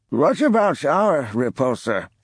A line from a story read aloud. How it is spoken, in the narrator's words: Asked the drawl Ebrahim